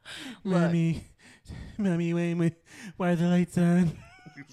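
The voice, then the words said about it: Childish baby voice. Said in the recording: “That's your baby voice.”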